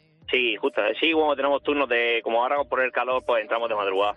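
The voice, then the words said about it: Murcian Spanish accent. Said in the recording (Spanish): “Qué acento murciano, ¿no?”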